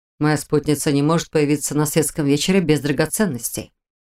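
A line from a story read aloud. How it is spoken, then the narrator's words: Calm explanation. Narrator (Russian): спокойно объяснил Шелтер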